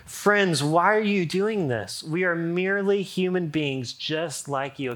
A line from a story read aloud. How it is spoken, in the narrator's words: in dismay ... shouting